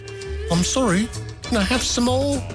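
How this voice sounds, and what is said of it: Put-on English accent. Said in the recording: “he said it in his cute little English accent.”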